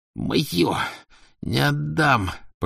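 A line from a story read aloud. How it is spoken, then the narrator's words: Hoarse rasp. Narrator (Russian): просипел он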